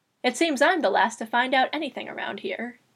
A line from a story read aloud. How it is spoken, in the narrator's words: she remarked dryly